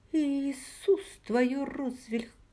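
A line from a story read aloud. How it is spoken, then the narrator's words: Hoarse, breathing heavily. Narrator (Russian): прохрипела я, тяжело дыша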